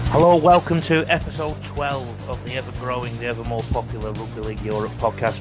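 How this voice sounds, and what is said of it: Salford English accent. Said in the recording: “I've got a Salford accent, in case you didn't pick it up”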